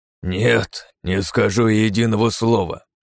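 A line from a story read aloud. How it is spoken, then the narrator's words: Angry. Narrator (Russian): сердито сверкнул глазами фон Браун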